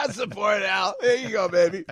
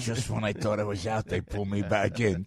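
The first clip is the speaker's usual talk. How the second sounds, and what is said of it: Al Pacino impression. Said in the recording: “Was that Pacino? ... Was that a Pacino impression?”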